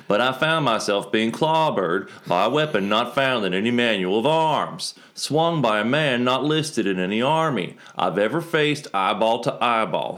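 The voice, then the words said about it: Put-on West Virginia accent. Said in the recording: “I'm pretty sure it wasn't West Virginia, but the accent works.”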